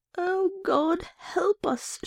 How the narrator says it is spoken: she moaned

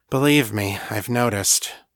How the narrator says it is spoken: Danny said dryly

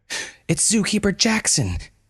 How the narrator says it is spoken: yelled Malon

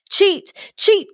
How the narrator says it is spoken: cried the villagers

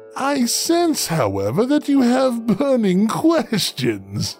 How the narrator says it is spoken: he said with a laugh

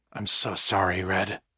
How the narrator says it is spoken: Egan murmured

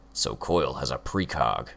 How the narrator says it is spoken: Hookwolf growled

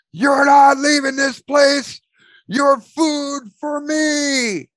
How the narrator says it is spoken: you hear Mark scream

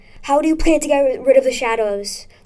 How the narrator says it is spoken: Sylvester yelled

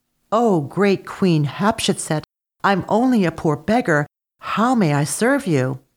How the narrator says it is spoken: he exclaimed

